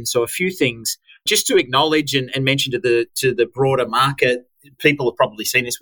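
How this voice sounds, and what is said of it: Australian accent. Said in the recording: “my edgy Aussie accent”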